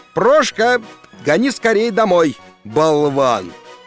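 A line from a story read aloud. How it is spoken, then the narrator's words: Shouted. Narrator (Russian): крикнул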